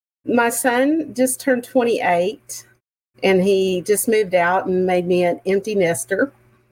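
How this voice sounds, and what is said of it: Texan accent. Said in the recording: “I'm calling in from Montgomery, Texas. I'm sure you can hear the accent.”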